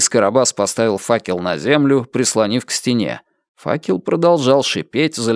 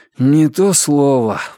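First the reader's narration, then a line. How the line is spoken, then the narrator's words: Sighing. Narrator (Russian): вздохнул Ричард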